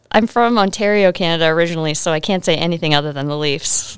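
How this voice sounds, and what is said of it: Faint Canadian accent. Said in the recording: “some kind of accent over there? ... Canadian accent, maybe. It's fading.”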